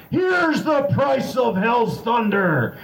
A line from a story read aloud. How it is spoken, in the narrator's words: you roared to the horde